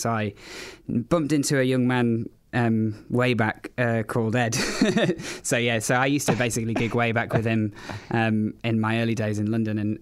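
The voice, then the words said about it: English accent. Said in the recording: “I've obviously got an English accent”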